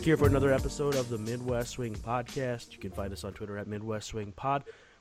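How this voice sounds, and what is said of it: Sick voice from a cold. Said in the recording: “As you can probably hear from my voice, I'm a little bit downtrodden by a cold”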